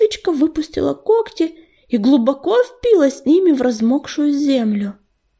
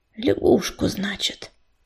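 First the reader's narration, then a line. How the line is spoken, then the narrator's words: Mutter. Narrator (Russian): пробормотала она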